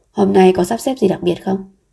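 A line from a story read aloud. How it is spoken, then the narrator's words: Plain. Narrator (Vietnamese): anh hỏi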